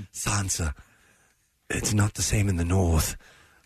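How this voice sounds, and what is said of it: Low-pitched character impression. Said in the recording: “You do a good Littlefinger impression... He gets so low in his speech.”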